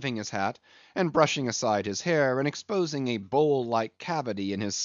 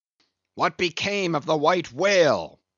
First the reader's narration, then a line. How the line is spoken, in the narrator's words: Now cried Ahab, who thus far had been impatiently listening